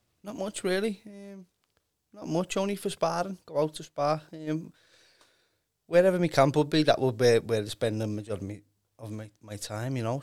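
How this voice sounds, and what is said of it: Liverpool Scouse accent. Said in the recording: “if anyone that is on here can't hear your accent immediately, you're a Scouser”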